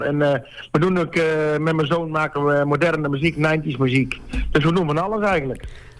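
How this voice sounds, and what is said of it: Brabant Dutch accent, slightly Flemish-sounding. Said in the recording (Dutch): “Jij hebt een beetje een Vlaamse accent erin zitten, hè? ... Dat is meer Brabant, denk ik. ... ik heb een beetje een aparte stem”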